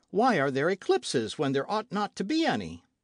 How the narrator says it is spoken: said Michel, in a merry tone

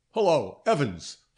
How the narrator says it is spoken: Fox shouted across it

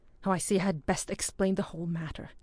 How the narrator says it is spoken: said Hector in an annoyed voice

